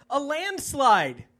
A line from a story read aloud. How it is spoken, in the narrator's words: he shouted